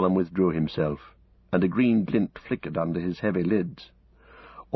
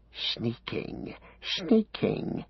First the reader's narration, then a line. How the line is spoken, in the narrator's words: hissed